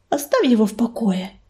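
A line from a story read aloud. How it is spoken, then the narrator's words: Gentle. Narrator (Russian): мягко заметила Пепелица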